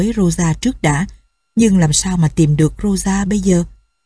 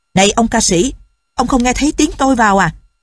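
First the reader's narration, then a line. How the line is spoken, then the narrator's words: Old man shouting. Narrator (Vietnamese): Lão hét lên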